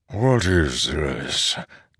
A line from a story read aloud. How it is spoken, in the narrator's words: Taln asked softly